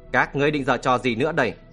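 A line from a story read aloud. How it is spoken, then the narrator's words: Cold question. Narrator (Vietnamese): Lão bịt mặt râu dài lạnh lùng hỏi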